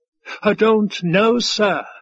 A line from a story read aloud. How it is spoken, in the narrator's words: the waiter wailed